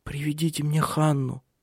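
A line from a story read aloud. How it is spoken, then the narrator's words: Whispered. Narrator (Russian): прошептала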